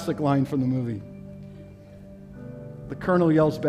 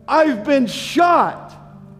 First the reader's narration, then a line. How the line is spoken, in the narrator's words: the sergeant yells back at the colonel